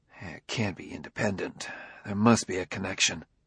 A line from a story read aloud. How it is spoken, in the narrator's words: He added in a mutter, far more to himself than to Ardenil